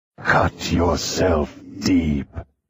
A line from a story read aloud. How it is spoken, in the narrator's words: he hissed in voice